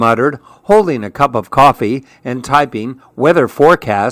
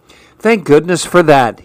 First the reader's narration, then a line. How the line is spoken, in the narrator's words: he sighed